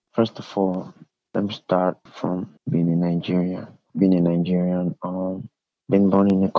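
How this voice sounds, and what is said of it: Strong Nigerian accent. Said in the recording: “has a strong accent.”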